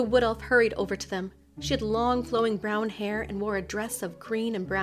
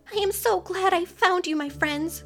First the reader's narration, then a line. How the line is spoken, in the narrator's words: exclaimed